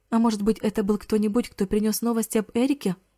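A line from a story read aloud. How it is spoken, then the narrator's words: Speculative. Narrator (Russian): Предположила она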